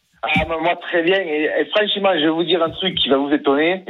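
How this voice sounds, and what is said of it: Slight regional French accent. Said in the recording (French): “Petit accent.”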